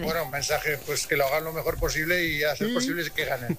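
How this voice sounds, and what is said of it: Strong Aragonese accent. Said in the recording (Spanish): “Al principio me ha salido acento mañito. ... Pero mucho, ¿eh?”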